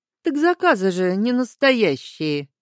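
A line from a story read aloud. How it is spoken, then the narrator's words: Mocking objection. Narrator (Russian): насмешливо возразил Аскольд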